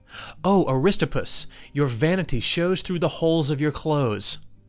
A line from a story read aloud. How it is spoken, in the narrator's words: Socrates exclaimed